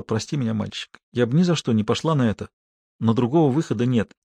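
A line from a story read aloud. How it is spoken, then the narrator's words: Mumble. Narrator (Russian): она пробормотала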